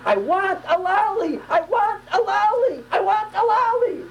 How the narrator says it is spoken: He hears his father screaming

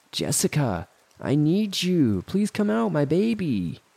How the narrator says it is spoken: She called out again

